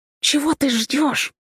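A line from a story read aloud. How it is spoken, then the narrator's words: Impatient hiss. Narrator (Russian): нетерпеливо прошипела она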